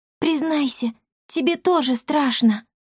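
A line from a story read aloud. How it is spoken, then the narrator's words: Whispering. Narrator (Russian): прошептала она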